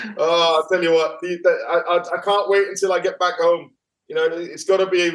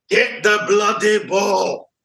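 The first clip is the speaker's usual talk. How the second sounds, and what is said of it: Imitates another person's voice. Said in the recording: “your impression of the gaffer”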